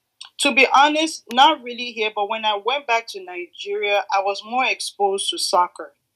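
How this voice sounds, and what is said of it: Slight Nigerian accent. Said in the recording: “a little bit of an accent? ... I'm from Nigeria ... y'all might hear a little bit accent from here to there”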